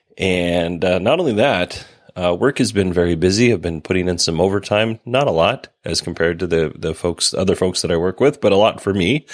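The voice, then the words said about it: Sick-sounding voice. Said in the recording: “as you can probably tell by my voice, I am still sick”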